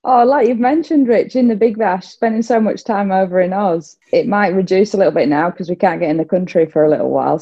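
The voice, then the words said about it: Australian accent. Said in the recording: “she's got an Aussie accent now... Where's this Aussie accent come from”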